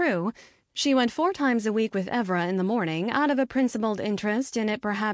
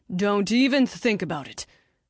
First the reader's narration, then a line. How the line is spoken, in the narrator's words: Griff snapped